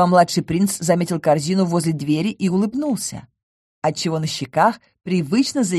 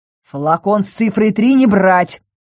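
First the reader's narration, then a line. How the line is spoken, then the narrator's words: Barked. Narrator (Russian): рявкнул Ингар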